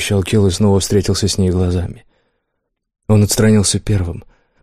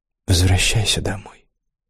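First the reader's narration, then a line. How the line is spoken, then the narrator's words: Quiet woman's voice. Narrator (Russian): тихо сказала она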